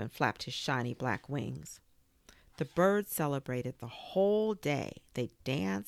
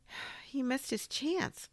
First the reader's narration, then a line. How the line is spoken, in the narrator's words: Swan sighed